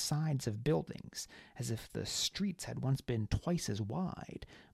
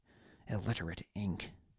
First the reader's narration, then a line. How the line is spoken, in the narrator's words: muttered, though his heart wasn't really in it